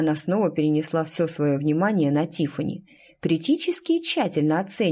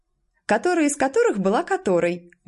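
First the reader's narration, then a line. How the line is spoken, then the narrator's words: Cheerful girl interjecting. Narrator (Russian): весело вставила какая-то девочка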